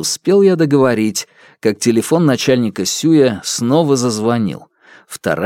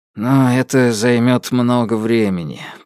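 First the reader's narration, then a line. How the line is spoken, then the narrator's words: Dejected voice over phone. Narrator (Russian): поникшим голосом отвечал следователь на другом конце провода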